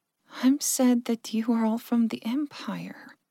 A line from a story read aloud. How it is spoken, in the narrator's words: Verka sighed